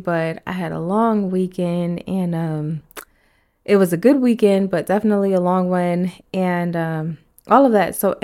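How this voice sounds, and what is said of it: Raspy voice. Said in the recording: “my voice is a little raspy,”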